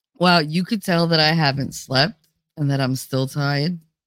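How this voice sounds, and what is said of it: Strong New Jersey accent. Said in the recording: “I can't control my accent when I'm tired ... that's real Jersey ... I just went super Jersey on you”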